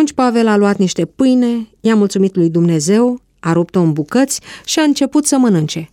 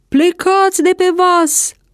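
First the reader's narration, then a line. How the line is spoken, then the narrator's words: Shouted. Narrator (Romanian): a strigat capitanul Iulius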